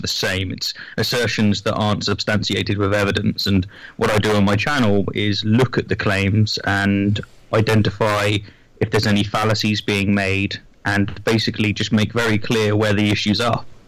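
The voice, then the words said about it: British accent. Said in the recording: “the British accent”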